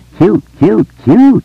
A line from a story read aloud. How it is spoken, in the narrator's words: Richie exclaimed